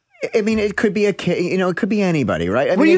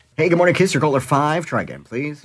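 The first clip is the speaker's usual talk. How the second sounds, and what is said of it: Put-on radio announcer voice. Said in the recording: “What are you trying to do with this voice, by the way? ... It's my radio voice.”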